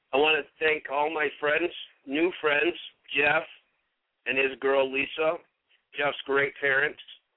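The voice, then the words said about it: Emotional, choked-up voice. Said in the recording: “getting a little emotional here”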